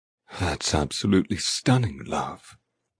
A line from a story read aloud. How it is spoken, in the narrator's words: Eamon murmurs as he comes closer